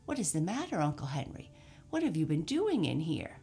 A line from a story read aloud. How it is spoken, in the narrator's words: she exclaimed in amazement